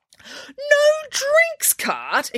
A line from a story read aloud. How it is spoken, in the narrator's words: exclaimed a horrified Nanny Piggins